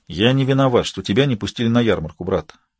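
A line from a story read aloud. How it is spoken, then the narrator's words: Soft reply. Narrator (Russian): мягко ответил он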